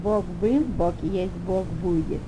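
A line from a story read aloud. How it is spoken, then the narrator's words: Calm. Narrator (Russian): Ванда спокойно повторила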